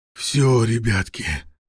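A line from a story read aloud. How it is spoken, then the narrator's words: Hoarse rasp. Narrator (Russian): прохрипел Волков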